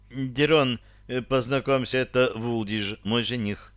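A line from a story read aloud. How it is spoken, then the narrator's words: Embarrassed girl babbling. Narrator (Russian): смущенно пролепетала девушка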